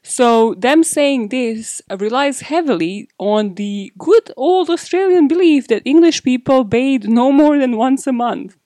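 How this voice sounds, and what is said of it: British English accent. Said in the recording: “British born and raised here, can you not tell by the accent,”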